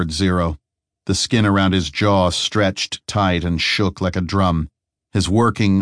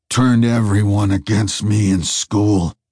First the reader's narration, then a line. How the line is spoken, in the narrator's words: snarled the faceless man